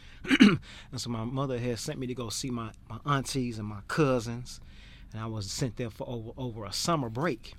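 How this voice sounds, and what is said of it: Southern American accent with twang. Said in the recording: “we have a southern accent ... that southern twang, that southern accent”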